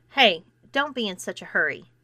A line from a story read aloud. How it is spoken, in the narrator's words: saying firmly